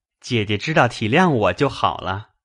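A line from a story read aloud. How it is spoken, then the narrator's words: Laughing. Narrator (Chinese): 宝玉又笑道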